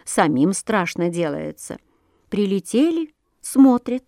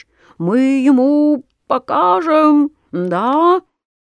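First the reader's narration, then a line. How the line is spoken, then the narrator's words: Mosquitoes squeaking. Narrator (Russian): комары ... пищат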